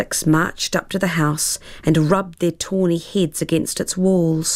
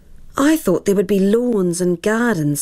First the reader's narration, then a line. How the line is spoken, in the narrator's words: sighed Eddie, his dreams of grandeur fading